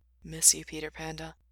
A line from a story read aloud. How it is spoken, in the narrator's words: whispered